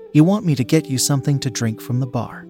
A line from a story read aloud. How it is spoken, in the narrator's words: I asked